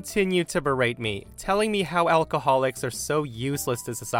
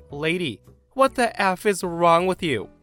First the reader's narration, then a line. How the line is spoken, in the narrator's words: I was high on adrenaline, I instantly yelled back